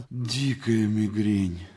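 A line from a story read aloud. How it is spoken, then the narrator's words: Suffering whisper. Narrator (Russian): Актер со страдальческими помутневшими глазами шептал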